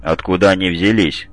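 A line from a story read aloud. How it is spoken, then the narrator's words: Grim question. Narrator (Russian): мрачно спросил Гаранин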